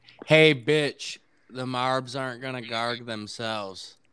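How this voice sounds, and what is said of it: Imitates another person's voice. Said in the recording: “is my impression of Ime Udoka when an intern walks in”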